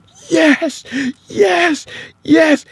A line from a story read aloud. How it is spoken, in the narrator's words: she's breathing like she's coming up from underwater, and she starts yelling